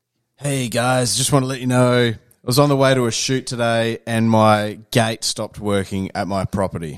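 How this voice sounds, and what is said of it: Put-on accent drifting Mexican to Australian. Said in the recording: “go from half Mexican to Australian in a sentence”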